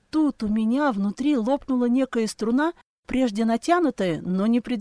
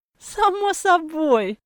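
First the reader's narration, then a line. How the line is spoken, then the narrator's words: Laughing old woman. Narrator (Russian): засмеялась бабушка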